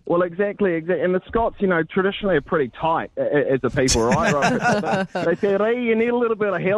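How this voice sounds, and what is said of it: Usual voice. Nothing is said of it.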